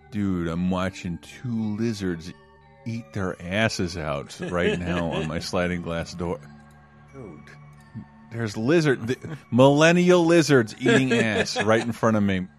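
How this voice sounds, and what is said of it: Imitates another person's voice. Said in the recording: “as Tommy Chong”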